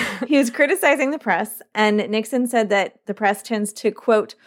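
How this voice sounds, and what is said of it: Usual voice. Nothing is said of it.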